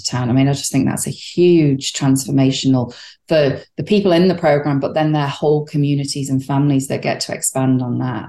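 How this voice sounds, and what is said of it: British accent. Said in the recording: “Your accent is not a Hoosier accent. ... You grew up in the United Kingdom.”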